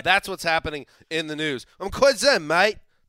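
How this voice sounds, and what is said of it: Bad put-on British accent. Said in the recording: “That's a fine British accent ... probably the worst British accent I've ever heard.”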